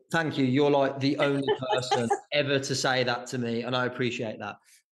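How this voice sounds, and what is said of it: Soft Birmingham English accent. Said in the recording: “they all have horrible accents like mine ... I love that accent ... people from Birmingham ... people have these lovely soft voices”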